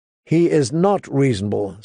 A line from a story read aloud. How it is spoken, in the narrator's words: said Catelyn